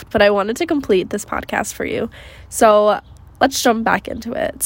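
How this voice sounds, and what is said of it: Congested, stuffy nasal voice. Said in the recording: “my voice might sound a little different because um, it's about a week later and I now have a sinus infection, so I'm a little stuffed.”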